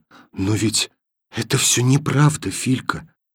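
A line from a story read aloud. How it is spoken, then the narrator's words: Whispering. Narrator (Russian): сказала она шепотом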